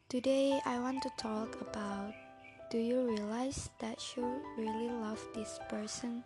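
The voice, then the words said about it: Non-native English accent, not fluent. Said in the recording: “my English is not very fluent and the accent is not good”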